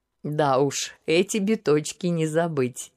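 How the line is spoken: Laughing. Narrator (Russian): не выдержав, рассмеялся император

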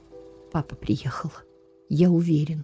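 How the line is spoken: Calm. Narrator (Russian): спокойно сказал цесаревич

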